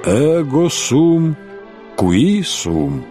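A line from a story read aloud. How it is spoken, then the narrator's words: Gentle interruption. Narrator (Russian): мягко прервал Самсон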